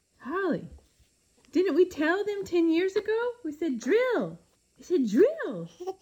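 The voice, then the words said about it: Ranting in a baby voice. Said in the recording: “me ranting about energy policy to my husband in a baby voice”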